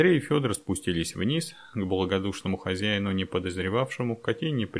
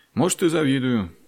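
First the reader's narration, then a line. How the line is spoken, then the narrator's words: Sad sigh. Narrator (Russian): грустно вздохнул Андрей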